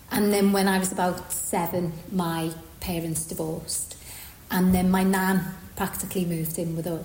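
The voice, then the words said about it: Liverpool accent. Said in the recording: “I grew up in Liverpool, obviously, by the accent”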